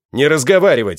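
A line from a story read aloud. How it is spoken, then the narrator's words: Barked. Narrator (Russian): рявкнул я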